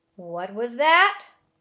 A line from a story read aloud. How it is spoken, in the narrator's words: roared a voice